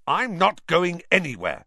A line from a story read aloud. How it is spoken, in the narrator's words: said Harry fiercely